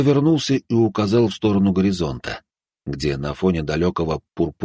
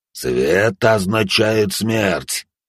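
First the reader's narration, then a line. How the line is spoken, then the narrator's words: Monstrous growl. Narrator (Russian): прорычал пожиратель костей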